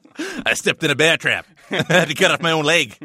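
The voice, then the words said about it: Weak put-on Australian accent. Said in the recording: “my paltry Australian accent”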